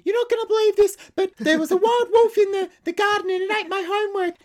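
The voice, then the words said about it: Ventriloquist dummy voice. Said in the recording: “making you sound like a ventriloquist dummy”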